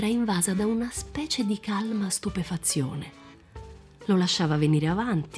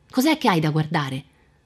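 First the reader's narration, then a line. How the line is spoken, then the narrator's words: Shouting. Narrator (Italian): gridarle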